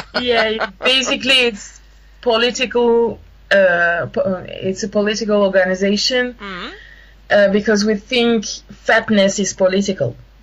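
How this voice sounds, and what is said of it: French-accented English. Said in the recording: “that's so beautiful in your accent.”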